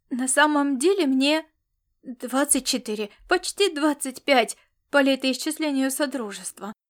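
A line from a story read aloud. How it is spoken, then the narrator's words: Timid babble. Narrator (Russian): пролепетал Бурага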